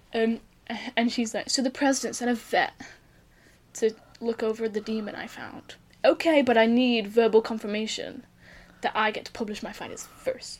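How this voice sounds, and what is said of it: Put-on accent for a character. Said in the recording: “Your accent's so amazing, by the way.”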